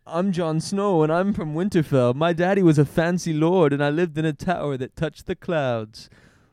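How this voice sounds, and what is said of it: Imitates a character's accent. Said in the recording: “more of Ygritte's accent”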